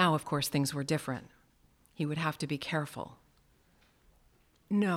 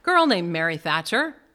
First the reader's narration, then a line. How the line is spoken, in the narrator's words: Silva said cheerfully